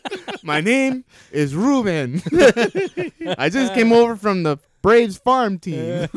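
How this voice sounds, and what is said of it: Poor put-on Spanish accent. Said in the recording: “Spanish accent was terrible”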